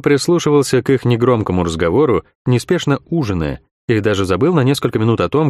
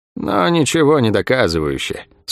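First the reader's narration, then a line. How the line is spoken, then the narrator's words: Bored objection. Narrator (Russian): скучным голосом возразила Лавиани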